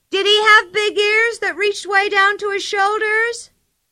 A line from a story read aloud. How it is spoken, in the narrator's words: Pippi shouted